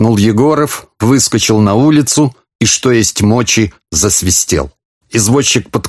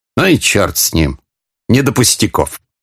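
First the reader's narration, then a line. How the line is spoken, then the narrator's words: Muttering under breath. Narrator (Russian): Буркнул князь под нос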